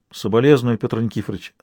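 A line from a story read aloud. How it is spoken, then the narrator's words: Plain. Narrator (Russian): сказал Адмиралов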